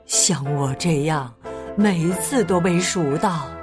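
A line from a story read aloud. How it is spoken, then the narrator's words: Sighing sheep. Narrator (Chinese): 一号绵羊叹息道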